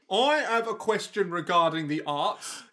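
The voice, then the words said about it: Put-on Cockney accent. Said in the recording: “such a Cockney accent”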